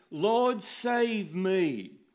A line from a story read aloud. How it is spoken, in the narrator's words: he was afraid and beginning to sink, he cried out, saying